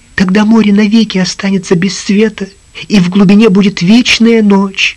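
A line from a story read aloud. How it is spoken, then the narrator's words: Frightened babbling. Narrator (Russian): Принцесса испуганно пролепетала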